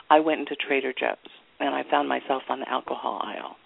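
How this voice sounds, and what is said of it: New York accent. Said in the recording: “my New York accent just came out there for a second”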